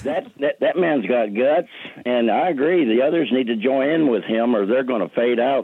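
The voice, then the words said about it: Thick Arkansas accent. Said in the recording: “You have that thick, you know, Arkansas accent”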